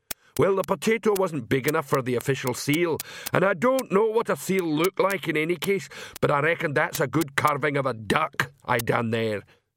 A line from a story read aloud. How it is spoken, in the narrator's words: said the troll cheerfully